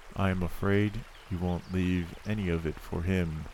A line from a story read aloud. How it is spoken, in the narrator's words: said timidly, after a silence